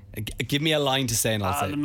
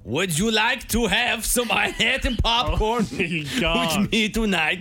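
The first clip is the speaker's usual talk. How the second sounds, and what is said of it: Shouting put-on French accent. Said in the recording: “German, but less creepy ... This is a shouting French man.”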